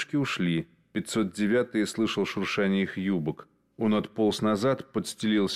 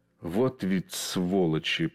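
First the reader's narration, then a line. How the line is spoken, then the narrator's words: Hissed. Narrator (Russian): прошипел он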